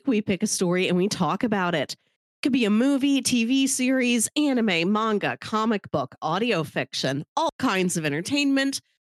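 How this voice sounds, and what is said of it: Congested, sinusy voice. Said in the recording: “I'm getting over a sinus thing. You can probably hear it in my voice.”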